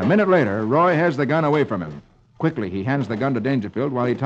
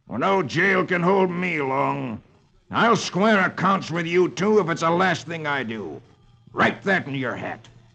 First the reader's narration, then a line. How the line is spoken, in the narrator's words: he snarls